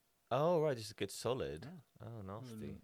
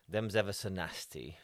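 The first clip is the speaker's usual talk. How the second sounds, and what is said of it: Put-on Lincolnshire accent. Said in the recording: “That was my Lincolnshire accent.”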